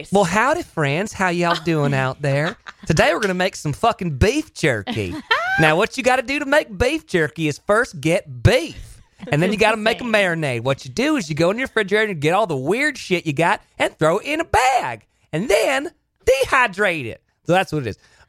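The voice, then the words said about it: Effeminate Southern character voice. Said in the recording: “I've created this character who's like Southern effeminate me ... give her a little taste of the accent.”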